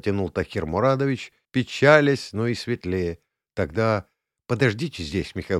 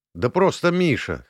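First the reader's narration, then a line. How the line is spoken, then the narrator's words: Snorting. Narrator (Russian): хмыкнул я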